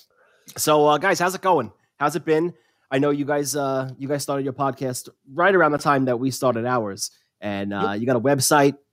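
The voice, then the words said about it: New York accent. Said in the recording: “We got the New York Boston thing going on. I got my accent.”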